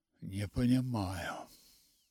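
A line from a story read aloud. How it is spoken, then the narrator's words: Mumbling. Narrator (Russian): бормотал он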